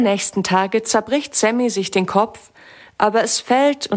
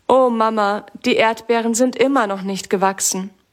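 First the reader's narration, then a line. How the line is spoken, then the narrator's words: Sad. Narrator (German): sagt Sammy traurig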